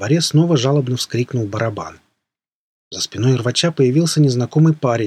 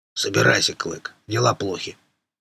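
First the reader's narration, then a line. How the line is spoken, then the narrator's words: Calm, ominous. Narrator (Russian): Рвач говорил спокойно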